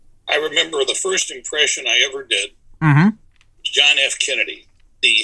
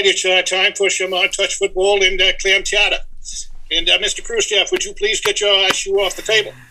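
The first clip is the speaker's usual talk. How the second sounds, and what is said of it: John F. Kennedy impression. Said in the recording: “great Kennedy impression ... You got to hear this kid do the president. He's really good.”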